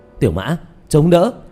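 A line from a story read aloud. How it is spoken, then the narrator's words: Loud shout. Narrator (Vietnamese): Diệp Thiếu Dương hét lớn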